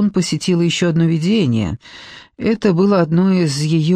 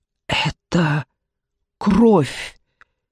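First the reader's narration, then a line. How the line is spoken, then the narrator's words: Strained, forced out. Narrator (Russian): выдавила я через силу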